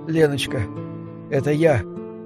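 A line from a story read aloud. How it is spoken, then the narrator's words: Quiet, sniffling, holding back tears. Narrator (Russian): тихо промолвил друг, шмыгая носом, пытаясь сдержать плач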